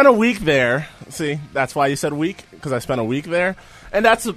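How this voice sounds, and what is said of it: Usual voice. Nothing is said of it.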